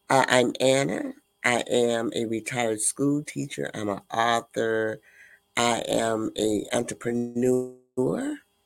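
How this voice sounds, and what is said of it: Hoarse, congested voice. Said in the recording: “I'm a little hoarse. I'm suffering from sinus”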